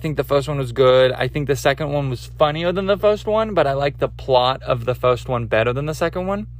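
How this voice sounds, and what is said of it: Usual voice. Nothing is said of it.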